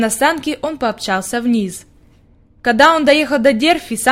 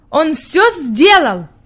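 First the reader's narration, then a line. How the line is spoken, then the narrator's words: Exclaimed. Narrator (Russian): Питер воскликнул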